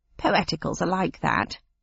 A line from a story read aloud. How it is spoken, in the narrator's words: said the cabbie with a disrespectful snort